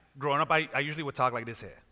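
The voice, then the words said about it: Caribbean accent. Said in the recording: “I grew up in the Caribbean. Every now and then you can hear a certain accent come out”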